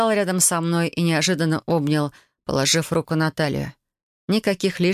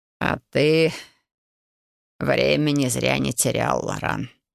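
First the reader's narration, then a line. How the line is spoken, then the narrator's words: Snorting. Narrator (Russian): хмыкнул он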